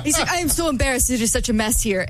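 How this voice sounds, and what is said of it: Put-on Argentinian accent. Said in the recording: “Argentinian accent. ... I'll stop doing my accent.”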